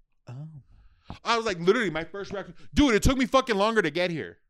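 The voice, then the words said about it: Loud, yelling into the mic. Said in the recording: “Sorry if I'm yelling into the mic”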